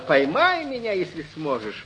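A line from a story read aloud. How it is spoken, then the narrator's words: Shouted. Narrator (Russian): Та, что полетела в широкий мир и кричала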